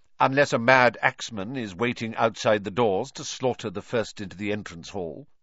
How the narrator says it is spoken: said Professor McGonagall coldly

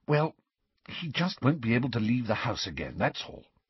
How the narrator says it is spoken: she whispered

